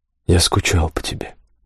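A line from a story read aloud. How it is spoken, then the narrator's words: Whisper. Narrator (Russian): прошептал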